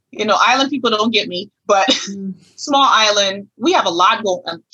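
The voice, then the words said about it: Thick island accent. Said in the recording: “I got a thick accent.”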